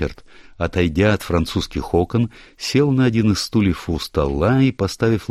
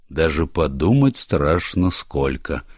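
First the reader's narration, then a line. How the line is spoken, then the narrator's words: Gloomy. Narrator (Russian): мрачно произнес Ричард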